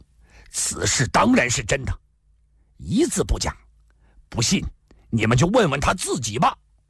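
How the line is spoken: Furious roar. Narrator (Chinese): 怒吼道

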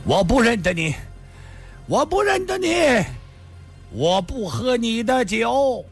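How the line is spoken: Loud shout. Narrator (Chinese): 这人大声地叫道

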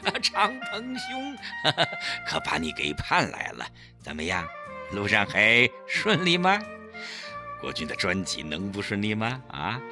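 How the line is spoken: Laughing. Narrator (Chinese): 齐长鹏笑着说

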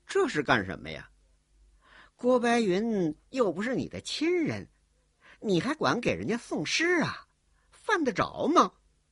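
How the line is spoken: Sneering. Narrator (Chinese): 冷笑着说

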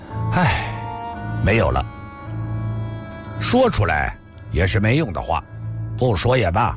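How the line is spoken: Long weary sigh. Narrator (Chinese): 李寻欢沉默了很久，长长叹息了一声

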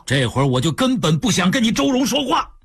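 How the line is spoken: Roaring. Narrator (Chinese): 周志刚吼道

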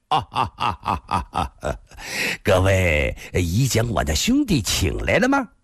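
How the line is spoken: Clear laugh, offstage. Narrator (Chinese): 屏风后一个人朗声笑道

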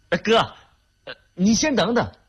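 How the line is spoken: Soft disappointed call. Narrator (Chinese): 玉婷失望地 轻轻地喊叫了一声

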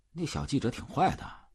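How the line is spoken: Muttering. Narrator (Chinese): 秘书嘟囔道

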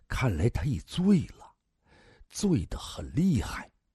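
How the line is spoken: Lower, quieter voice. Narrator (Chinese): 大汉的声音更低了

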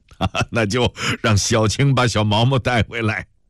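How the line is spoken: Hearty laughter. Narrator (Chinese): 陆震天终于爽朗地笑了出来

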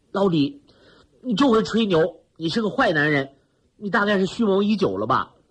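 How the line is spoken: Laughing through tears. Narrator (Chinese): 田雨破涕为笑说

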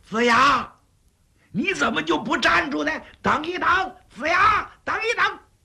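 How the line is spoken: Shouting, drawing closer. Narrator (Chinese): 后边那个人呢，越喊声音越近

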